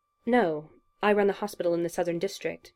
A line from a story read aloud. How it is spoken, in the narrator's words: replied Julian, keeping his tone and expression neutral